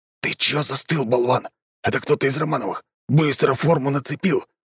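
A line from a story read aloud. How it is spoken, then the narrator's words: Hissed. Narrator (Russian): прошипел Тимур своему товарищу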